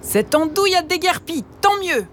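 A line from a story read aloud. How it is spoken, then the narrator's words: Gleeful shouting. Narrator (French): Bien content d'être enfin débarrassée de lui, Margot en criant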